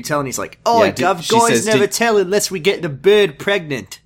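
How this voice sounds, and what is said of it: Put-on Australian accent. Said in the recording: “I think I went Australian a little bit there ... you were doing an outstanding Australian accent”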